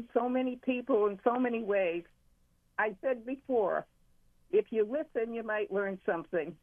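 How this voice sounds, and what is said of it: Massachusetts accent. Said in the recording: “Are you from Massachusetts? ... I heard the accent.”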